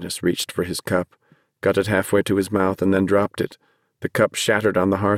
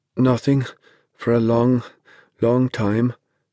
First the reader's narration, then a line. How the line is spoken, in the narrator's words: Dennis said in a halting voice